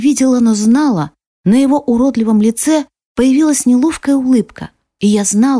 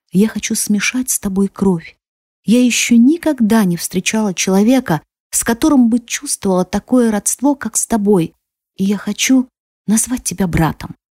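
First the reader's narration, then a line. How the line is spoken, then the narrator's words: Tearful whisper. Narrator (Russian): глотая слезы, прошептала я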